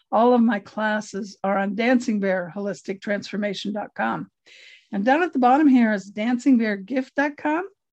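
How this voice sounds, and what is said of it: Strained, fading voice. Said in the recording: “I'm losing my voice, sorry.”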